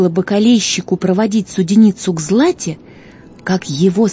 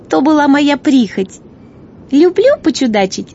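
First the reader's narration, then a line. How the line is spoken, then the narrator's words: Laughing guest. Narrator (Russian): засмеялась гостья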